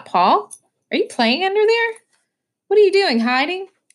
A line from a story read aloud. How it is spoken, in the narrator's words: She called out